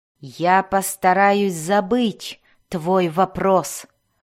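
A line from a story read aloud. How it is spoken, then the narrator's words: Hissing. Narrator (Russian): прошипел он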